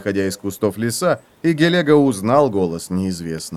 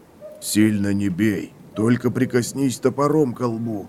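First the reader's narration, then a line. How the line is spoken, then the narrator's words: Bear whispering. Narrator (Russian): шепнул медведь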